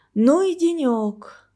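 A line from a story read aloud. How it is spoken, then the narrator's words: Sigh. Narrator (Russian): вздохнула Анна Георгиевна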